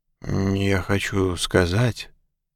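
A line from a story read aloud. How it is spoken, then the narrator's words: Mumbled. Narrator (Russian): промямлил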